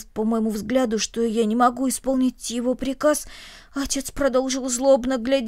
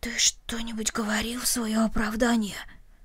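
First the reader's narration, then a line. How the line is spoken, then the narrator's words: Quiet question. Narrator (Russian): Рома тихо спросил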